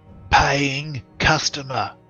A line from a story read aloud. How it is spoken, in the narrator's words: he whispers, hisses in his ear